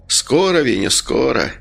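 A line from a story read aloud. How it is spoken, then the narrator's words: Sleepy. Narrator (Russian): сонно ответил Медовар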